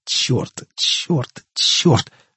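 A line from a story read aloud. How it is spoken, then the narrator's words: Hiss through clenched teeth. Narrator (Russian): шипел он сквозь стиснутые зубы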